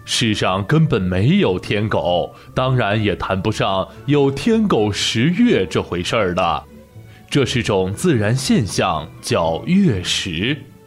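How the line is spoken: Smiling, kindly. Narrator (Chinese): 河马老师笑眯眯地说

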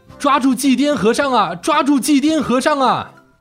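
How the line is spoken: Angry crowd shouting while chasing. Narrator (Chinese): 人们气得拼命地追赶，一边追一边大声喊

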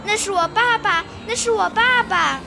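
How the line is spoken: Shocked loud cry. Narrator (Chinese): 匹诺曹 突然大吃一惊，大声叫起来

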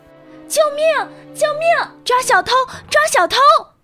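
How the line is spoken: Loud shouting. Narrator (Chinese): 维基尼亚大声呼喊

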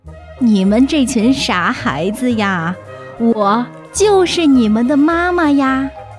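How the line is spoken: Mother's laughing reply. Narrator (Chinese): 青蛙妈妈笑着回答

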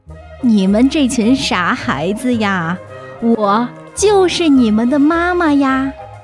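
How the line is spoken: Laughing mother. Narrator (Chinese): 青蛙妈妈笑着回答

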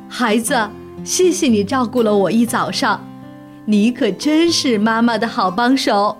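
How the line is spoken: Happy, warm. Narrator (Chinese): 熊妈妈立刻高兴起来了，笑着对他说

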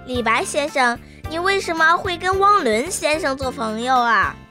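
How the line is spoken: Sudden loud question. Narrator (Chinese): 彤彤突然开口大声地问道

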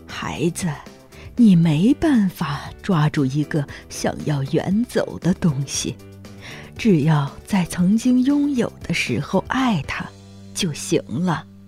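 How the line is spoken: Soft voice. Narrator (Chinese): 格罗利亚小声说

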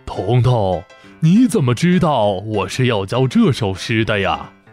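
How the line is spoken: Surprised, amused old man. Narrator (Chinese): 老先生惊讶地 笑着 说道

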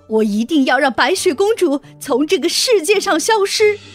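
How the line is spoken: Furious shout. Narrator (Chinese): 王后…气愤极了，她大叫

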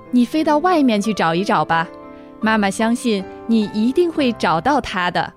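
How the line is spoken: Gentle, smiling mother. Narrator (Chinese): 燕子妈妈还是微笑着说

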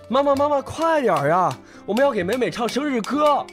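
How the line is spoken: Older brother calling out. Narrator (Chinese): 哥哥一边敲一边叫着

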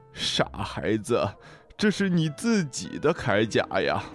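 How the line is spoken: Smiling. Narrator (Chinese): 海龟笑着说

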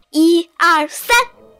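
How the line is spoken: Loud counting. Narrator (Chinese): 匹诺曹开始大声数着

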